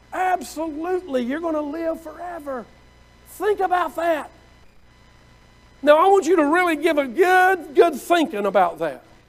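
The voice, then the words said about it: Country boy accent. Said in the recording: “I know I talk country boy. I know I do, because I am a country boy. ... That's country term.”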